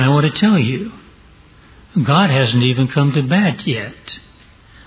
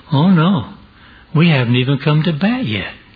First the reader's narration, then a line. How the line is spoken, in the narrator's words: the little boy cheerfully said